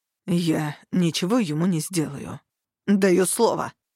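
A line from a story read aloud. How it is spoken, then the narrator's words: Growled from behind. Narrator (Russian): рыкнул сзади Хартат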